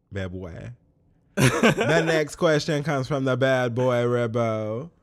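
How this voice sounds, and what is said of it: Put-on Caribbean accent. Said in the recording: “Am I supposed to say that with a Caribbean accent? ... I'm mad I did a Rihanna accent”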